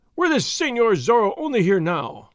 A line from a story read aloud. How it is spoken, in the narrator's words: one of them cried